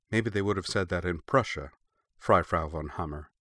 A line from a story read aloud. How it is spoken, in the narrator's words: Heidemarie challenged her quietly